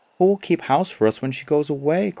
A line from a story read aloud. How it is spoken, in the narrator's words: cried another